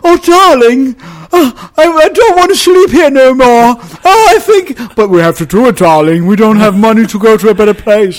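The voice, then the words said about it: Affected fake British accent. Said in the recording (Danish): “de fleste af dem very badly. Og nogle af dem med sådan påtaget britisk accent.”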